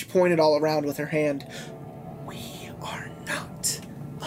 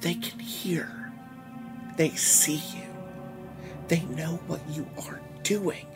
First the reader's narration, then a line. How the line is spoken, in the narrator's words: she softly hissed